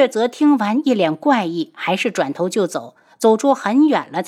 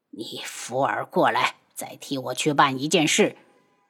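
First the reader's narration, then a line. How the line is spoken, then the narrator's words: Lowered voice. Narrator (Chinese): 童武压低了声音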